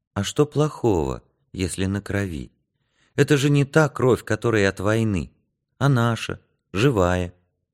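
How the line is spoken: Tender. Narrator (Russian): Янка ласково сказал

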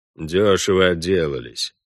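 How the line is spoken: Grumbling. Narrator (Russian): проворчал Вольво

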